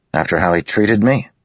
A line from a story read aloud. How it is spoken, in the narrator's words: Kaladin snapped